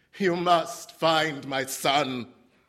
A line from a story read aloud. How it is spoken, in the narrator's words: he shouted at the police chief